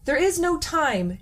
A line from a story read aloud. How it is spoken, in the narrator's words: Nemo cried